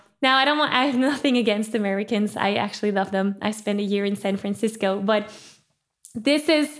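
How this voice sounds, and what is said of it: Usual voice. Nothing is said of it.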